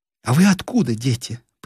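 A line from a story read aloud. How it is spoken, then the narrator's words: Inquiring. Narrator (Russian): поинтересовалась Нина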